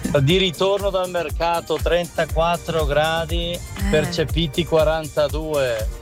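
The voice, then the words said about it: Bergamasco Italian accent. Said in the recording (Italian): “io ho l'accento bergamasco”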